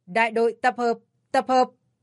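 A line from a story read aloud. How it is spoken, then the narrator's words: Loud bellowing command. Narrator (Vietnamese): quay đầu gào lên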